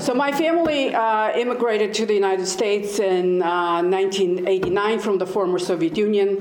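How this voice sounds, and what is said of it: Non-native accent. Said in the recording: “I'm the only one who still has the accent.”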